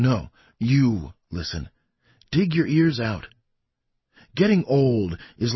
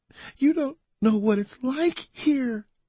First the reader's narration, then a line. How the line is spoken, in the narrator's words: she cried